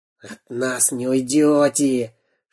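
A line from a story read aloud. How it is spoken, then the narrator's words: Rasping saw-like hiss. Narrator (Russian): шипел, как пила, Дырка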